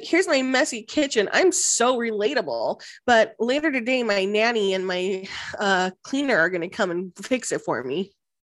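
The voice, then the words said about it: Baby voice. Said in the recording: “baby voice”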